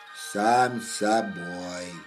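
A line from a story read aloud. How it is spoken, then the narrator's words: Sad little bear, sniffling. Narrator (Russian): грустно ответил медвежонок и шмыгнул носиком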